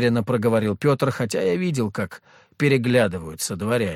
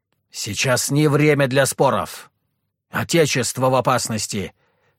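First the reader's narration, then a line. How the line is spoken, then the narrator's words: Sharp bark. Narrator (Russian): рявкнул Петр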